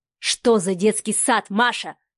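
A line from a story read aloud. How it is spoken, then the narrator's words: Growled. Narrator (Russian): прорычал Адмиралов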